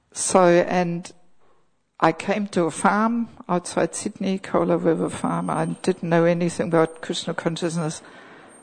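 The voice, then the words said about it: German accent with slight Australian tinge. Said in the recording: “my accent has a bit of a tinge of Aussie accent”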